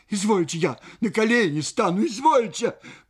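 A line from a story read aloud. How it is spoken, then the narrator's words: Frightened cry. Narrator (Russian): Паша вскрикнула от испуга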